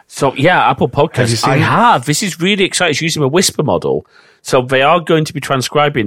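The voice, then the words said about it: Strong Northern English accent. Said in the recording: “my strong Northern English accent”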